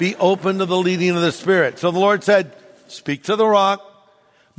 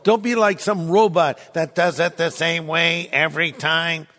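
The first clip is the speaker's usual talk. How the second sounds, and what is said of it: Robotic imitation voice. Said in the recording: “That's my imitation of a robot.”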